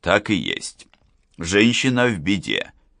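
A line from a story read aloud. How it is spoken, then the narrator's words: Plain. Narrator (Russian): ответил Гуров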